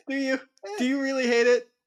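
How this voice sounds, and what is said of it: Bad Larry David impression. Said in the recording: “this damn Larry David sound that you make all the time... your Larry David noises... Such a terrible Larry David impersonation.”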